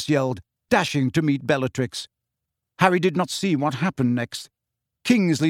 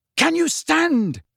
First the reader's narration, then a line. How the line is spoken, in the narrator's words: he bellowed in Neville's ear